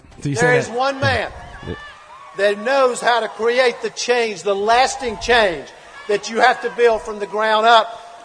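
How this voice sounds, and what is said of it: Southern American accent. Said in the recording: “there's something about anybody from the South, no matter how bright you are, it just doesn't sound great. I don't like that accent.”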